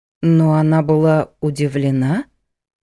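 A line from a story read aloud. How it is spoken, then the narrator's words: Drawn-out, bewildered. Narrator (Russian): протянула Ада растерянно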